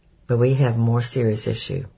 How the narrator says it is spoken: sighed

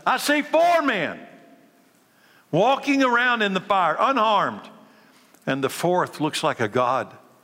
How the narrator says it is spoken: Nebuchadnezzar shouted

